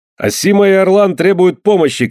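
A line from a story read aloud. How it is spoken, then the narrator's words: Shout. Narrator (Russian): крикнул Андре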